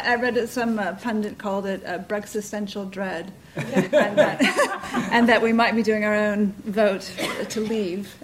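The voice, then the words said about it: Speaks with a noticeable foreign accent. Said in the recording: “you'll hear from my accent”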